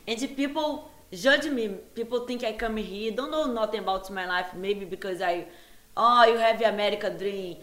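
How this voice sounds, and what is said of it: Foreign-accented non-native English. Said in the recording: “I have accents when I talk ... I'm going to forever I have accents”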